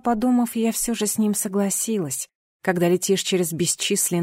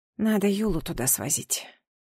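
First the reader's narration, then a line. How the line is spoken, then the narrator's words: Whispered to herself. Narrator (Russian): шепнула я сама себе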